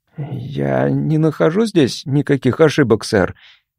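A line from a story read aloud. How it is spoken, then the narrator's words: Timid. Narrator (Russian): наконец робко произнес Квейл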